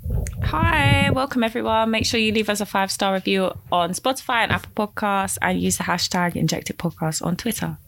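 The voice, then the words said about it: Congested voice. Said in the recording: “I've got a cold.”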